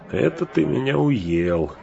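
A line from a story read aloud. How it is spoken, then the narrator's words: Laughing along with others. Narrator (Russian): засмеялся с прочими и Сэм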